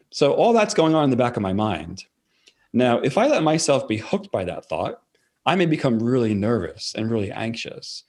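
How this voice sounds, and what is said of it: Fast-talking New York accent. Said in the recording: “I'm from New York. So New Yorkers tend to talk very fast, which I know I definitely talk fast ... New York accent”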